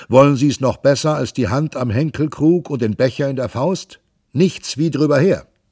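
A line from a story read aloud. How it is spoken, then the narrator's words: Shouting. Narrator (German): rief Pantagruel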